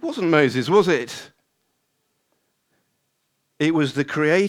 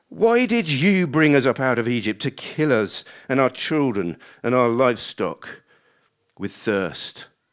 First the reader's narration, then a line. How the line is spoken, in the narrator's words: the people grumbled against Moses and said